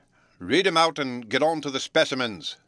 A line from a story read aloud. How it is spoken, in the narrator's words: grumbled the Emperor